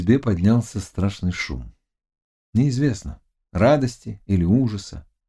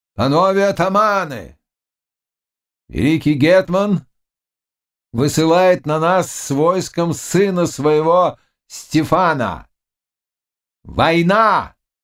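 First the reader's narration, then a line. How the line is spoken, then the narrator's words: Loud voice. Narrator (Russian): И лицо его вдруг изменилось, и он произнес громким голосом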